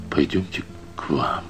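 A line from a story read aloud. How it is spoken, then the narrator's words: Quiet. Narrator (Russian): проговорил он тихо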